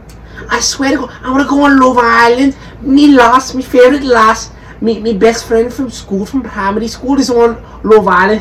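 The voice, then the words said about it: Put-on regional accent. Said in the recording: “It's a good accent.”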